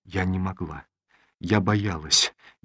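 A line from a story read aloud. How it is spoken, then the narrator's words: Barely audible. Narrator (Russian): еле слышно произнесла Олеся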